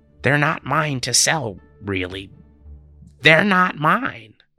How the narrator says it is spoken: he added in an oddly loud tone

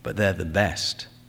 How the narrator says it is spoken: Valenti said quietly

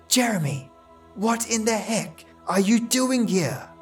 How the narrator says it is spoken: whispered in an annoyed tone

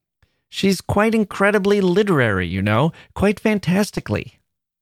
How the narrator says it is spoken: exclaimed

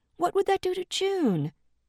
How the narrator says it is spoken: Dee pleaded

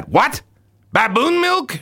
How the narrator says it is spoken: shouted the king

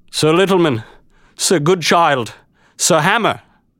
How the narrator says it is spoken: he cried to them in a breaking voice

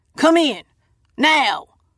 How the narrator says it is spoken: barks

